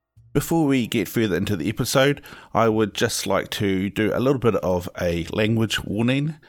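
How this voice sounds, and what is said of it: New Zealand accent. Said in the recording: “I host the podcast from out of New Zealand. That's why you hear this chap with a funny accent.”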